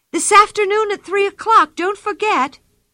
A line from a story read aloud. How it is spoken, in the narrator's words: cried Anika